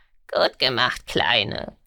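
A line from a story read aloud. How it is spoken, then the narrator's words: Croaking. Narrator (German): krächzte Garn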